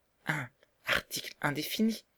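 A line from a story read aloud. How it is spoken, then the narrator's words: Soft. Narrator (French): dit doucement Marguerite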